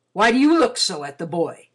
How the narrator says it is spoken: he exclaimed irritably

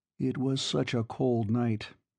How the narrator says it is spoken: he continued, perversely, keeping his voice upon a melancholy note

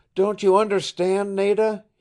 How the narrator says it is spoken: he cried

